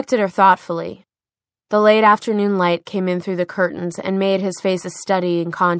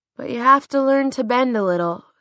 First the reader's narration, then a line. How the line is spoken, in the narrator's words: said Clary with a yawn